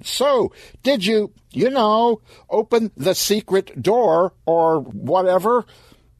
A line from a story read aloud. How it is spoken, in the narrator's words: Stan shouted